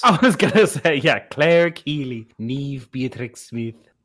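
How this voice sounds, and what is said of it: Attempted Irish accent. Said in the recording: “is that your attempt at an Irish accent?”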